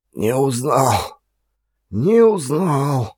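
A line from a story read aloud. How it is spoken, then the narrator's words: Muttering. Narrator (Russian): бормотал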